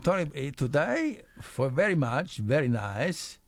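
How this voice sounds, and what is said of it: Put-on Spanish accent. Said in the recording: “You sound like Nadal there... that awful accent there”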